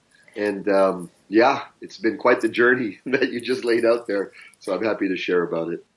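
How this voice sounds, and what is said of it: Canadian English accent. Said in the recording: “my accent is Canadian because I'm raised in Canada”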